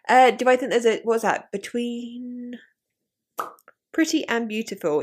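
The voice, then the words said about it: Common southeast English accent, monotonous. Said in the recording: “I think my accent is very, very common... I'm like more southeast than that... Your tone is monotonous.”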